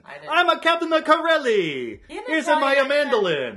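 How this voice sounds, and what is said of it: Deliberately bad Italian accent. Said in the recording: “he had a really bad Italian accent”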